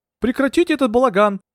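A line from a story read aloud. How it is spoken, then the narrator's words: Shouted. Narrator (Russian): закричал Скоробогатов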